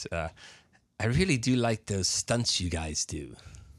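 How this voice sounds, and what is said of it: Terrible British accent impression. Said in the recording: “I'm going to do a terrible British accent”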